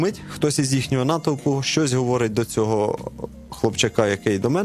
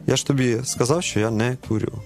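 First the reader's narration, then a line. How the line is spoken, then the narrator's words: Calm reply. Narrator (Ukrainian): Але оця молитва, яка в цю мить відбулася, вона мене заспокоїла, я йому абсолютно спокійно відповідаю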